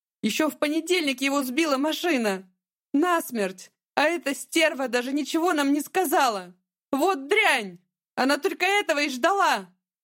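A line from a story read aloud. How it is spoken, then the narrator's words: Shouting ever louder. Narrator (Russian): Мама кричала все громче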